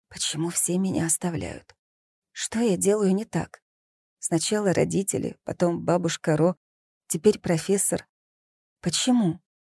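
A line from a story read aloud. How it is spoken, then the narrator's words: Quiet, head tilted back. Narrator (Russian): тихо сказала в потолок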